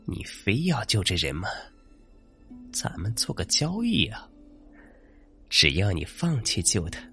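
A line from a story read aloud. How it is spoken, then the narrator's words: Resigned sigh, female. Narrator (Chinese): 那女生无奈叹了口气说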